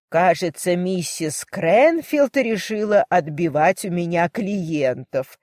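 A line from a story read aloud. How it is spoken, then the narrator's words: Old woman laughing. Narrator (Russian): рассмеялась старушка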